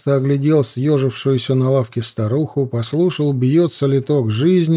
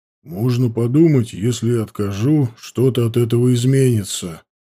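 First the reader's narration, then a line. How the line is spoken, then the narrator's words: Grumbling under breath. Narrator (Russian): проворчал Туоли себе под нос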